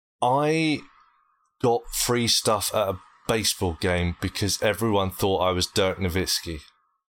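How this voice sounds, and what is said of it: British accent. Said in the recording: “my accent. Everyone thought I was Australian ... a British accent”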